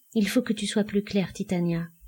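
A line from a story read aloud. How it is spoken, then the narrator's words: Flat toneless voice. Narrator (French): dit Jean d'une voix blanche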